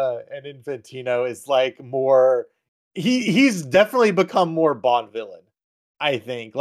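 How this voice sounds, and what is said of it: Usual voice. Nothing is said of it.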